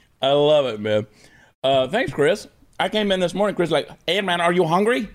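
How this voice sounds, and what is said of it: Usual voice. Nothing is said of it.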